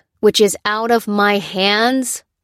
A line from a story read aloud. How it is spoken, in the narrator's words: said the supervisor loudly